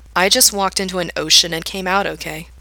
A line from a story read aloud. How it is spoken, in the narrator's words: he says out loud, doing his best to keep his voice calm and steady